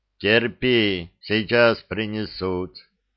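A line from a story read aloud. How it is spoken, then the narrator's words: Calm reply. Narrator (Russian): спокойно ответил Губарев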